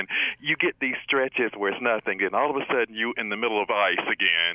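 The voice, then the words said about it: Southern American accent. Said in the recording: “I love your voice and I love your accent”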